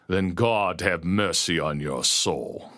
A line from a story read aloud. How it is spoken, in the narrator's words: he growled